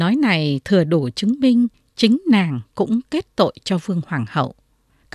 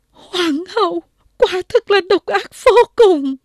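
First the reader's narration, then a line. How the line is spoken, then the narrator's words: Feigned anguished wail. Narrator (Vietnamese): Võ Tài Nhân đóng kịch rất giỏi, rú lên thảm thiết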